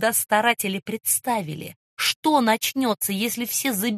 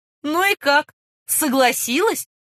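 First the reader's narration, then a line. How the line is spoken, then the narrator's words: Laughing loudly. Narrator (Russian): расхохотался лейтенант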